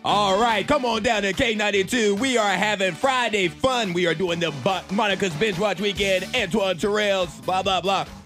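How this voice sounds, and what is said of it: Radio DJ announcer voice. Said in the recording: “I bet ... has one ... radio voice ... Yours is in there a little bit. ... You were still trying to be too cool.”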